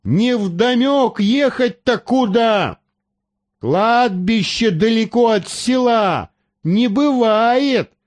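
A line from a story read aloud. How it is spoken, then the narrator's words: Sudden startling yell. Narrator (Russian): заорал вдруг доктор так, что сам испугался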